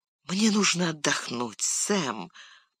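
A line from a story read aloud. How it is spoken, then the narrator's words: Whisper. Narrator (Russian): прошептал Фродо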